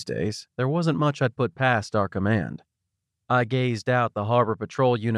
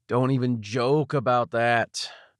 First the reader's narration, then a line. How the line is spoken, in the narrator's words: groaned